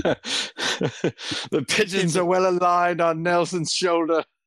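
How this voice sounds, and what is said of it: Fagin character voice. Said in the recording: “I said it in my Fagin impression.”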